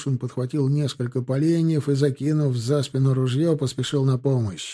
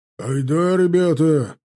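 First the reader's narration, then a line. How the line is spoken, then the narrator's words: Barked while running downhill. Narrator (Russian): Рявкнул, сбегая по склону, Гать и Чанов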